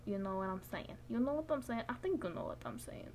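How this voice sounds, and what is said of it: Put-on Russian-New Jersey mixed accent. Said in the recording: “I don't know what this accent is. I can do a couple accents ... Was that like Russian mixed with New Jerseyan?”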